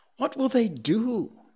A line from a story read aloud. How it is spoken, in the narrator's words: Little Toomai called out